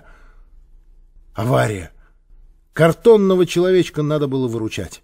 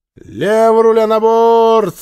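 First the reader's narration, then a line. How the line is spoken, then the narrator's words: Loud command. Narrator (Russian): громко скомандовала Женя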